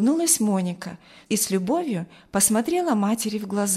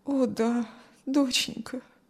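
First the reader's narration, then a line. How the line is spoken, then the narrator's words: Sad, mother. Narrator (Russian): грустно ответила мать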